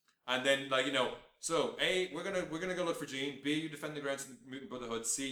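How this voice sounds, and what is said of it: Usual voice. Nothing is said of it.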